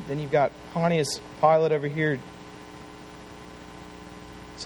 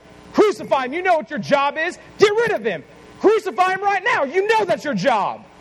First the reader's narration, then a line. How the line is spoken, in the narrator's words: The voices of the world were yelling at Pontius Pilate over here going